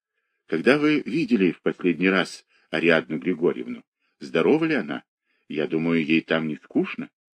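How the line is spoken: Low undertone. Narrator (Russian): говорил вполголоса

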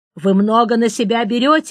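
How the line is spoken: Official barking. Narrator (Russian): рявкнул партийный чиновник

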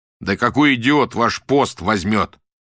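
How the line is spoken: Shout. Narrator (Russian): крикнул Рубин

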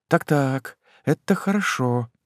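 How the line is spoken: Softly. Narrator (Russian): тихонько сказала она

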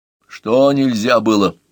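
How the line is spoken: Menacing question. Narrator (Russian): грозно спросил Поливанов

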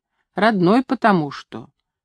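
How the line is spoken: Calm voice. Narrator (Russian): Спокойным голосом она сказала мне

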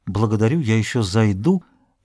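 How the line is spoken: Mumble. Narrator (Russian): Он пробормотал

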